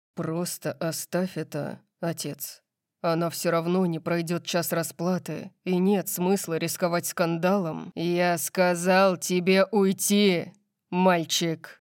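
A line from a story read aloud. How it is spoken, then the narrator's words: Growl. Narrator (Russian): прорычал Лайонел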